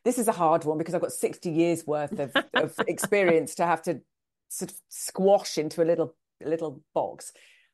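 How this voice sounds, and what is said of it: British accent. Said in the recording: “you have this funny accent for those of us up here in the Pacific Northwest”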